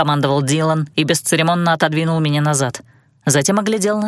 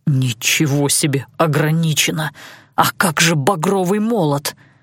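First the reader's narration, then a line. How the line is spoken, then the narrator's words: Hissed. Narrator (Russian): зашипел Алан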